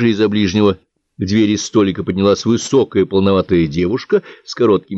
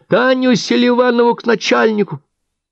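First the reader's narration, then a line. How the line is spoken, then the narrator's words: Little girl's thin shout. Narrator (Russian): совсем маленькая девчушка лет 10 прокричала тоненьким голоском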